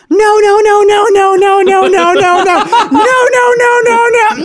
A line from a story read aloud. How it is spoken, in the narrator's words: the girl's just shouts